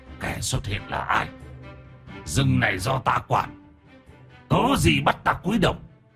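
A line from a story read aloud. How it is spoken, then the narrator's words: Growling tiger. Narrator (Vietnamese): Hổ xám gầm gừ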